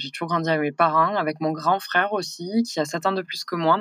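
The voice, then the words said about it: Southern French accent. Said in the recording (French): “à mon accent, vous allez vite le comprendre que je suis du sud.”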